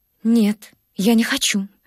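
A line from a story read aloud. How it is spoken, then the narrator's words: Muttering. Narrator (Russian): пробормотала Катенька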